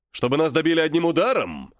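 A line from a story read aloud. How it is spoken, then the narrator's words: Angry question. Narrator (Russian): зло спросил Верховный Волхв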